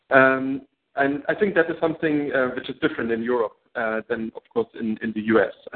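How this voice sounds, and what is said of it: German accent in English. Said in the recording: “I think in Germany... people told me, you're not good in English... I still have my accent”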